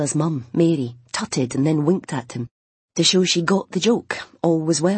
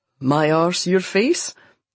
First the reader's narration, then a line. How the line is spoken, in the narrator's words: Duncan laughed into his beard